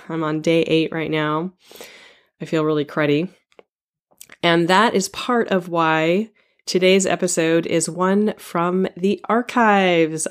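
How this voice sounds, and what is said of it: Froggy, hoarse sick voice. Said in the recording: “my voice sounds rather froggy today because I have the flu”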